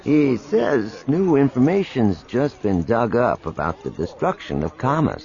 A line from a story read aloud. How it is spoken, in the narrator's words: Tycho said grimly